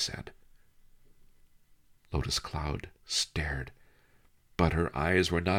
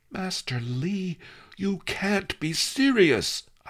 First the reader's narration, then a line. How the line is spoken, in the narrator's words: I gasped